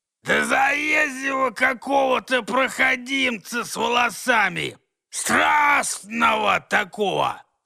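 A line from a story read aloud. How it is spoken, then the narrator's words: Bark across the road. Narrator (Russian): рявкнул тот через дорогу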